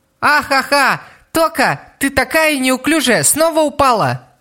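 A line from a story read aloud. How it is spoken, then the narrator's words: Shouting. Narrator (Russian): закричала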